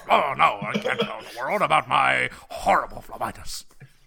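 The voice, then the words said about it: Imitates Futurama Nixon cartoon voice. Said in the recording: “his Nixon impersonation ... our Nixon impersonations are just the Futurama Nixon impersonation”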